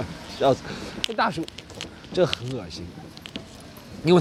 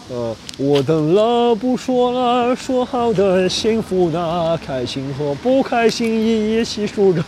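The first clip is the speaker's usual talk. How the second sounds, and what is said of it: Mock operatic baritone singing. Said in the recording (Chinese): “用歌剧的口音唱《说好的幸福》... 男中音学的洋不洋、腔不腔那种”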